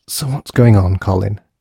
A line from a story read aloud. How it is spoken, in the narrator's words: Grace whispered eventually